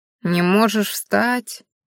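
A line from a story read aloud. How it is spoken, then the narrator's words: Sympathetic old man asking. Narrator (Russian): участливо поинтересовался старик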